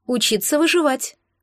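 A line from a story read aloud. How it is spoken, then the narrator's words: Cheerful reply. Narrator (Russian): бодро ответила Марго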